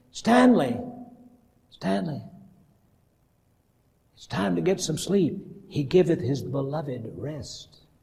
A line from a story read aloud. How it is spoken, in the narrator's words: hollered down the stairs to him and said